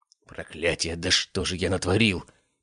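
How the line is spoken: Hissed under breath. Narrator (Russian): прошипел себе под нос Аристарх Биркин

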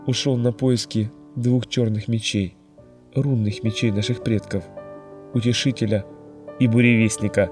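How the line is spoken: Gloomy. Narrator (Russian): мрачно сказал Элрик

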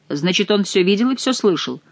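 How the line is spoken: Plain question. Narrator (Russian): спросил герцог

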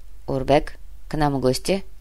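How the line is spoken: Quiet guard. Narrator (Russian): Тихо сообщил подошедший охранник

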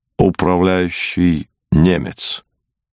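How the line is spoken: Calm answer. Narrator (Russian): Пауль Сепп спокойно отвечал

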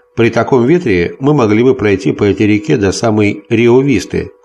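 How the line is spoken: Plain. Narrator (Russian): сказал я

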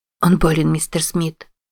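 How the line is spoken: Whispering. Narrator (Russian): прошептала ему Патриция

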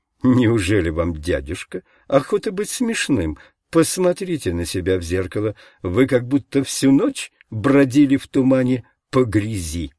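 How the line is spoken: Cheerful, laughing. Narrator (Russian): весело засмеялась и сказала

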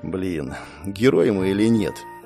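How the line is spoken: Muttering. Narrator (Russian): пробормотал я

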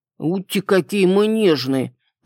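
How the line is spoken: Grumbling dragon. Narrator (Russian): проворчал дракон

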